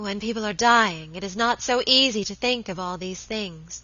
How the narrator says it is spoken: murmured my lady, looking reproachfully

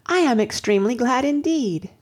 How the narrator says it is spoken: cried Anne

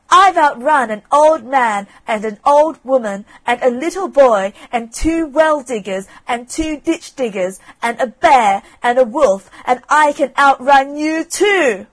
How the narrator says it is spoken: screamed out

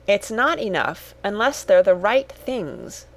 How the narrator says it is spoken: said Cyril firmly

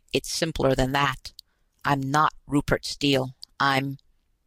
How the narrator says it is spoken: his voice caught

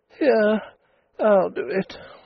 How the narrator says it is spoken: she said wearily

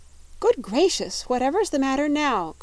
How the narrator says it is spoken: cried Dorothy

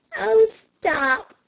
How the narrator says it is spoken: cried Flame

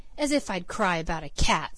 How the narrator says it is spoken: scoffed Peter

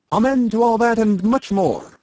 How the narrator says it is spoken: shouted Toby

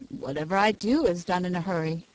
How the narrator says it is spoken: replied he

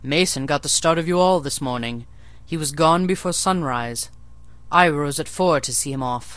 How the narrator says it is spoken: I heard him in the yard, saying cheerfully

